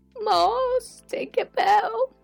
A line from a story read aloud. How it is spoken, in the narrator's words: Freddy wailed